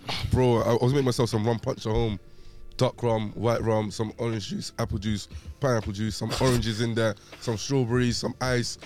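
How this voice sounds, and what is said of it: Hoarse, cracking voice. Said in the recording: “Voice is a bit gone. Feeling a bit hoarse. ... You heard that crack?”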